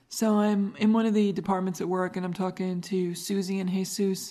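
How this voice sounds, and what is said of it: Accent like Linda Belcher cartoon voice. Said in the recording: “your accent, did you ever watch Bob's Burgers? ... I'm Linda Belcher”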